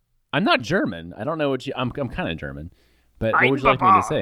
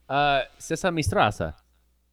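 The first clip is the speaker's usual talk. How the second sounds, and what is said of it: Weak put-on German accent. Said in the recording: “can you say it kind of German then? ... that was kind of German ... I honestly am not very good at doing a stereotypical German accent.”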